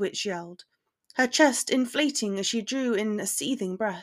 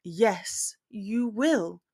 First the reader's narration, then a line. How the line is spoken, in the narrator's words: he responded calmly